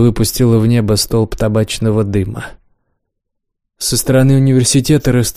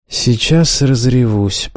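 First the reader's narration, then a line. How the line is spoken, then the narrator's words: Through gritted teeth. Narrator (Russian): процедила Лиза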